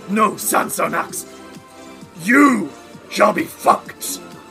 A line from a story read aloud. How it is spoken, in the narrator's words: he snarls and says